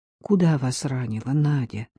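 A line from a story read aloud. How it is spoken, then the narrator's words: Soft question. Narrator (Russian): мягко спросил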